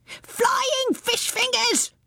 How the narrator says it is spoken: shrieked Rumbucket

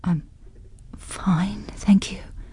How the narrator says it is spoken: she whispered

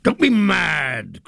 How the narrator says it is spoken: cried Potiphar scornfully

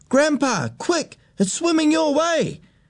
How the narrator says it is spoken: he shouted

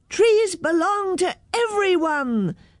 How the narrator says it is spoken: shouted all the children

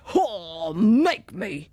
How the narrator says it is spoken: he roared

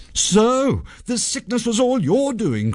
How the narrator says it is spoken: cried Sanjay

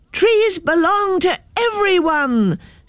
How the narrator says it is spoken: shouted all the children

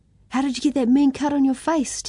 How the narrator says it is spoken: Timothy asked excitedly

